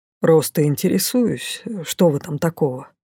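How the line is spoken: Mage's surprisingly peaceful reply. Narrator (Russian): На удивление мирно отозвался маг

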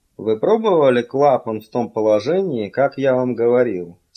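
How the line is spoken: Plain. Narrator (Russian): спросил он

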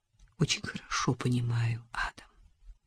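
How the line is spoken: Quiet. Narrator (Russian): тихо сказала она

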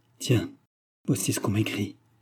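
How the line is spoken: Shaken murmur. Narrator (French): murmura-t-il d'une voix altérée

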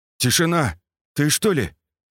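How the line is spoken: Uncertain mumble. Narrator (Russian): неуверенно пробормотал Скат, почти распознав знакомый голос

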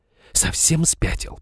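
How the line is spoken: Furious hiss. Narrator (Russian): прошипела взбешенная Изабелла

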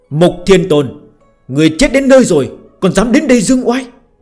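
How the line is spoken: Majestic loud shout. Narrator (Vietnamese): Hạo Thiên Tôn, uy phong lẫm liệt, thét lớn một tiếng

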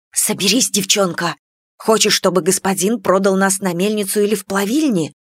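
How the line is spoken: Whispering. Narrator (Russian): прошептала мать

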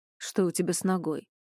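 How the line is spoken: Plain. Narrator (Russian): спросил Макс

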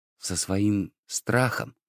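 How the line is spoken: Cat whispering a question. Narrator (Russian): шепотом спросил кот

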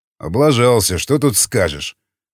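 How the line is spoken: Snorting chuckle. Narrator (Russian): хмыкнул варяг

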